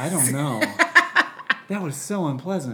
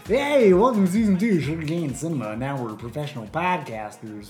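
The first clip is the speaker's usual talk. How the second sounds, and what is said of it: Joking exaggerated radio announcer voice. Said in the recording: “Got to do our radio voice. ... That's your radio voice. ... That was a bad voice to listen. I know mine was pretty bad, but mine was like a joke.”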